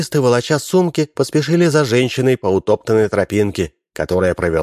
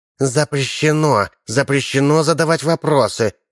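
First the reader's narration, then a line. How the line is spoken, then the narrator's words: Hissing. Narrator (Russian): шипела Чикита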